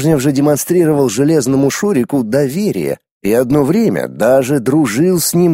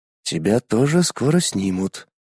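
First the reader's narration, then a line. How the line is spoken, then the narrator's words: Whispered prediction. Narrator (Russian): тот шепотом предсказал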